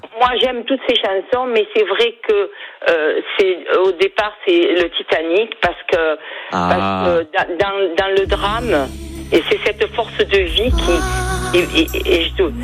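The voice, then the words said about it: Slight Perpignan southern French accent. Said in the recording (French): “J'ai l'accent perpignanais ... On sent le petit accent”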